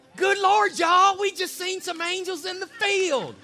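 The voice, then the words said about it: Put-on Southern accent. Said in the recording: “I imagine it with the southern accent. ... That's my Pastor Ryan impression.”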